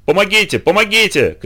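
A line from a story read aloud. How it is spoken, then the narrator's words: Hoarse shouting. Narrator (Russian): кричал красавчик хриплым голосом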